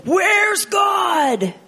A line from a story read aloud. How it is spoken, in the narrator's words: The boy screamed